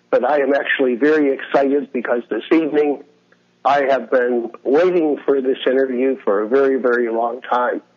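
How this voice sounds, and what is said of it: Raspy, hoarse voice. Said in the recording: “I'm just getting over a cold, so my voice is a little raspy and I may lose it”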